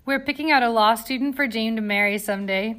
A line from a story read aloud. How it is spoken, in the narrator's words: Bella said, laughing